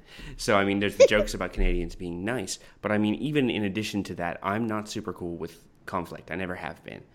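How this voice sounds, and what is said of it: Canadian accent. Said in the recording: “I'm Canadian, as you might have heard from my accent.”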